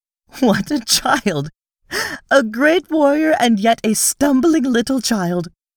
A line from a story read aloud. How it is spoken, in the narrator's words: with an odd little laugh, which brought roguish dimples to the corners of her mouth, she shook her head and cried